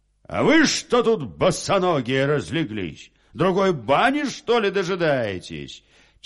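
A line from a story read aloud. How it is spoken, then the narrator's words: Soldier's sudden shout. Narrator (Russian): Вот солдат как крикнет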